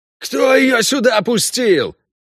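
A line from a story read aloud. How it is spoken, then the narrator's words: Yelling elf. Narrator (Russian): снова заорал эльф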